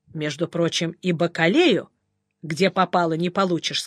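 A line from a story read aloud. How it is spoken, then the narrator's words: Plain. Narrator (Russian): сказал поп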